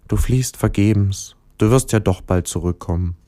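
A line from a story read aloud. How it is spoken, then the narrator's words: Quiet. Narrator (German): Der Stern sagte leise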